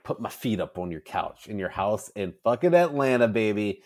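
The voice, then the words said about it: Slight put-on Southern accent. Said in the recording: “I just did a little bit of a Southern accent”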